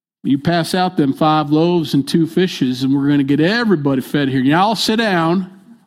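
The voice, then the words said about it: Put-on folksy casual accent. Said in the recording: “He probably talked like this, you know... I don't have a Hebrew accent. I don't know how to do it.”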